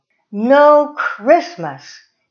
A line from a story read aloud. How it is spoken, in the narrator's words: she shouted